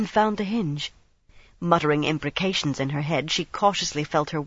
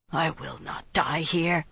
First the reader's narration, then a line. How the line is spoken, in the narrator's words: she muttered